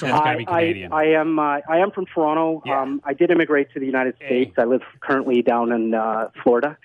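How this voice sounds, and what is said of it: Canadian accent. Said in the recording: “are you Canadian or from the Midwest? ... You caught the accent, didn't you”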